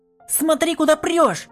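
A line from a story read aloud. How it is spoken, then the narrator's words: Female shouting. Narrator (Russian): закричала она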